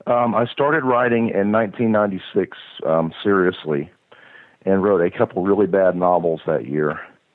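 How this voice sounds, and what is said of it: Strained voice giving out. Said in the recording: “My voice is going out.”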